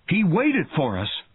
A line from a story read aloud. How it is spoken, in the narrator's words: cried Brody